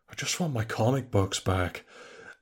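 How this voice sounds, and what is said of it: Nicolas Cage impression. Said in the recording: “That's a great impression. ... I've watched so much Cage at this point.”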